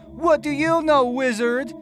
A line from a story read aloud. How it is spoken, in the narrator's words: yelled